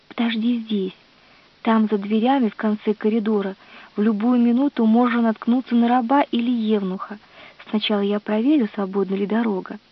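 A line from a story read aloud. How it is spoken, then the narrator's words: Whispered. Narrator (Russian): Зинобия прошептала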